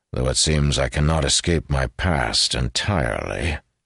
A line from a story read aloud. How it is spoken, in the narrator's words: he added in a dry tone